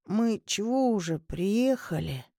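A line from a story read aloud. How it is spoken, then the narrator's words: Sleepy mumble. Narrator (Russian): сонно пробормотал Кирилл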